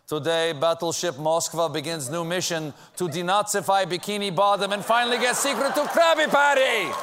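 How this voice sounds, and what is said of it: Drifting put-on Russian accent. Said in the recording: “I have a really drifting Russian accent. It gets Italian very quickly.”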